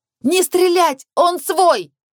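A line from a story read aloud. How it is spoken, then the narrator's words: Yelling. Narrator (Russian): завопила я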